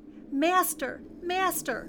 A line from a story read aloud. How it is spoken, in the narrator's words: the harp called out